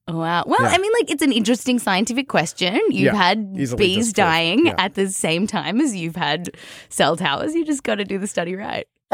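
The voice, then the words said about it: Australian accent. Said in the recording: “judging by your accent ... Australian, born in America, but raised in Australia”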